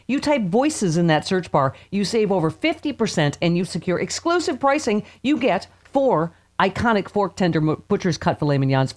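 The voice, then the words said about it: Loud excited shouting. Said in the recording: “I'm screaming and spitting.”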